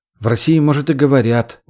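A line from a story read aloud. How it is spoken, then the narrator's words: Grumble. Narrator (Russian): буркнул Умар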